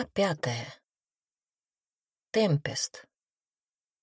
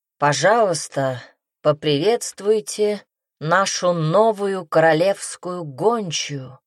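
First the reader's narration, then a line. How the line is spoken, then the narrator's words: Loud low-voiced shout. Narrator (Russian): прокричал Мадрид своим низким голосом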